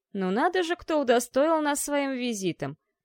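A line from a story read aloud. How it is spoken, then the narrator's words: Mocking guttural voice from above. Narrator (Russian): насмешливо произнес неприятный гортанный голос откуда-то из-под потолка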